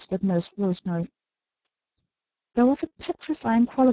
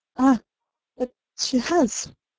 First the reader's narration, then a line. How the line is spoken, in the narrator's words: said Nurse Rosemary brokenly